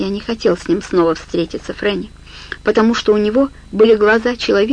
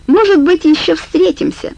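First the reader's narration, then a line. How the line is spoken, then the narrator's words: Laughing. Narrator (Russian): засмеялся и говорит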